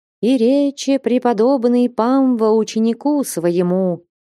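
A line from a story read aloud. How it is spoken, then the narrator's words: Chanting reading. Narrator (Russian): нараспев стала Таифа читать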